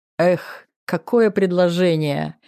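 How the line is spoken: Laughing chuckle. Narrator (Russian): хохотнул Жданов

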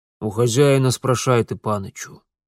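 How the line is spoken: Old man's reluctant grumble. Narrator (Russian): неохотно проворчал в ответ дедок

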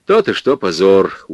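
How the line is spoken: Weary sigh. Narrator (Russian): устало вздохнул директор

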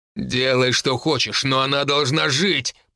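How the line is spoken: Growling. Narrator (Russian): прорычал Тайфун

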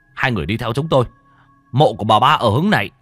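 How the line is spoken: Tall man shouting. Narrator (Vietnamese): Người đàn ông cao lớn lúc nãy mới hét lên

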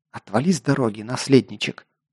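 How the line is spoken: Hissed through teeth. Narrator (Russian): прошипела сквозь зубы вампирша

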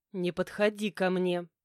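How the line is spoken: Warning growl. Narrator (Russian): прорычала предупреждающе

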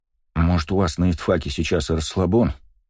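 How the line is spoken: Sigh. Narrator (Russian): вздохнул Кирилл

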